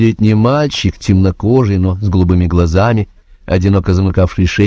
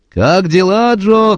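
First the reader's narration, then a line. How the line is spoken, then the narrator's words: Mechanic shouting. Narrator (Russian): кричал механик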